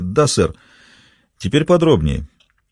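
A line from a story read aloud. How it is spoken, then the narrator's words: Calm old man. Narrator (Russian): спокойно сказал старик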